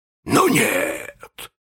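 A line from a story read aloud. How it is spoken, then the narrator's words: Hissed through teeth. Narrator (Russian): прошипел Крюк сквозь зубы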